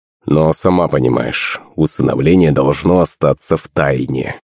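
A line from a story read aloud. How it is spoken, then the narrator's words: Grumbling mutter. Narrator (Russian): пробурчал он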